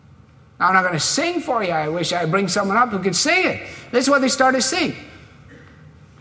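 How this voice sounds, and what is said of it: Usual voice. Nothing is said of it.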